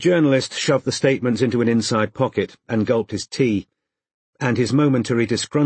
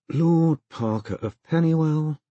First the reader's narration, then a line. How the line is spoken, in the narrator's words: he said happily under his breath